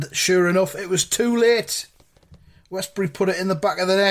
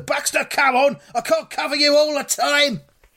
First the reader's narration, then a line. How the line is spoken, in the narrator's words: Guthrie's shouting at Noel Baxter